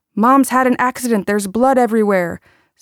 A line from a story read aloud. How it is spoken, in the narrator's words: he shouted back